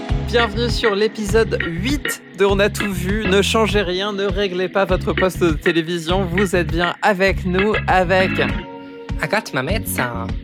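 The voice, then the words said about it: Odd put-on accent of unclear origin. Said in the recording (French): “C'est quoi cet accent Je ne sais pas. Je ne sais pas d'où il vient.”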